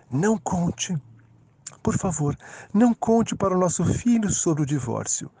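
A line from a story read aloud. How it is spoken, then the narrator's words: Softly spoken. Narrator (Portuguese): Ela fechou os olhos e disse baixinho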